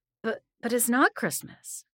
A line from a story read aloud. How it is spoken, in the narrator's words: I stammered